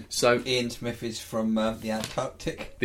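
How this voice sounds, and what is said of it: Put-on silly polar bear accent. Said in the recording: “Doing your polar bear accent.”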